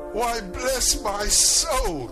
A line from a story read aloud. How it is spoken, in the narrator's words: cried Fred